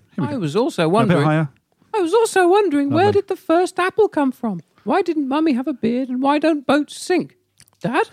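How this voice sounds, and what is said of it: High-pitched young child voice. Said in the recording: “you're playing a very young child, so a high voice, please”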